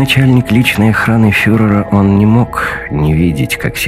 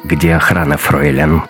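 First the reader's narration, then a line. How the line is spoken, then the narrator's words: Icy question. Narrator (Russian): ледяным голосом спросил Раттенхубер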